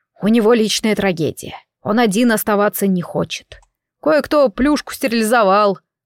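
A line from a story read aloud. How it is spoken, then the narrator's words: Grumbling. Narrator (Russian): пробурчал Бублик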